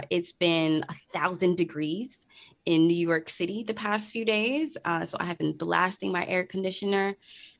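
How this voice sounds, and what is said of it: Hoarse, sore-throated voice. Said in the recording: “my voice sounds a little more sultry today ... now I have a sore throat ... if I sound a little different”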